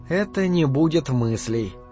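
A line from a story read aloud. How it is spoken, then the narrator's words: Muttering. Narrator (Russian): пробормотала Вашти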